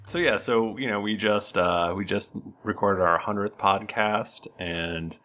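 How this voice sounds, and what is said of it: Polished podcast-host voice. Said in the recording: “you have your podcast voice on”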